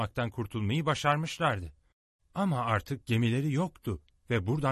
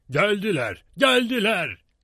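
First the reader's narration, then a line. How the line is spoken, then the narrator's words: Shouting. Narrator (Turkish): diye bağırarak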